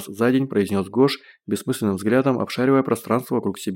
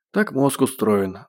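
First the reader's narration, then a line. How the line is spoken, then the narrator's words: Doctor's sigh. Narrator (Russian): вздохнул доктор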